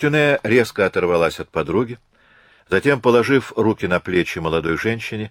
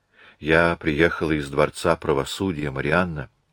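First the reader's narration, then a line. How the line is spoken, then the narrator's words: Very quiet. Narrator (Russian): сказала госпожа Гамелен так тихо, как только могла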